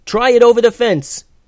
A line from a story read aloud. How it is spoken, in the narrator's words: yelled Eleanor